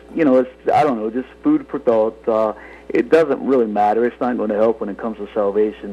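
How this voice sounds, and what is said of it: North Carolina accent. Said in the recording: “I'm not from here, as you can tell by my accent. I'm originally from North Carolina”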